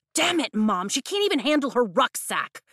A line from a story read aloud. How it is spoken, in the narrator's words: Mira snaps